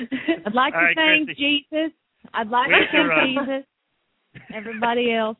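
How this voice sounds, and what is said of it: Put-on southern accent. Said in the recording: “You just can't quit when you get into that southern accent.”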